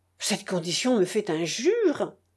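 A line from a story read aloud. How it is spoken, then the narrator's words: Affectionate exclamation. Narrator (French): s'écria le ministre d'un air affectueux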